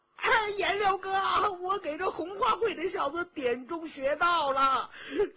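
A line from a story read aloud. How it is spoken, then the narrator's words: Shouting. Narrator (Chinese): 佟兆和叫着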